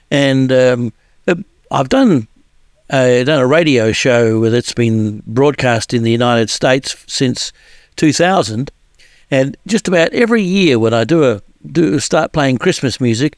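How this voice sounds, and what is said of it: Southern Hemisphere, New Zealand accent. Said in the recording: “I'm from the Southern Hemisphere, obviously, as you'd tell from my accent. I was born in New Zealand, and since 1981, I've lived in Australia.”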